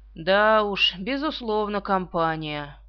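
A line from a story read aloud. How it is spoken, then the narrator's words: Gloomy. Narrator (Russian): мрачно произнес Стоддарт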